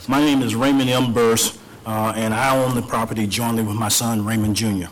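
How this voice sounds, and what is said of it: Slightly hoarse voice. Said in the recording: “I got a little hoarse voice.”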